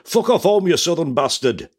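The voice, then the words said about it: Attempted Geordie accent, sounding Yorkshire. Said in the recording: “It sounded like you were in Yorkshire there. ... that's the best I could do, I'm afraid. That's the one accent that defeats nearly everybody else apart from Geordies.”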